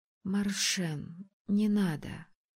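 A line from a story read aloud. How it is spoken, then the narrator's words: Quiet request. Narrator (Russian): тихо попросила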